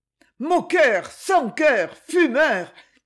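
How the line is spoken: Exasperated shout. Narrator (French): cria-t-elle d'une voix exaspérée

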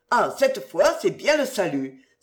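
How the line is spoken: Exclaimed. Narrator (French): s'écria monsieur Saignebosse

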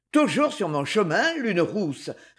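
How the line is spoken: Grumbled. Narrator (French): grommela-t-il

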